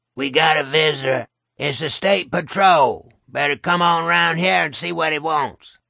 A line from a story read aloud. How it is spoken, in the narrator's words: rasped